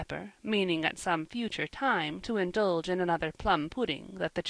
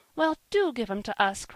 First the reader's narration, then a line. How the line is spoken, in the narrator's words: cried Polly